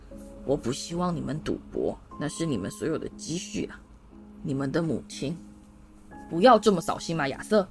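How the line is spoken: Hushed. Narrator (Chinese): 卫斯理先生压低声音说

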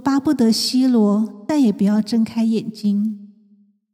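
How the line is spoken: Sighing lament. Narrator (Chinese): 唉声叹气，说

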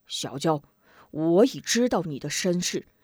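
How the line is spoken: Stern, harsh. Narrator (Chinese): 康婆婆厉声道

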